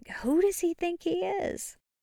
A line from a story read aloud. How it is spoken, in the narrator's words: they whisper behind your back